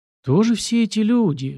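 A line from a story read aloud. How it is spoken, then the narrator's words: Sighing. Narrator (Russian): вздохнул я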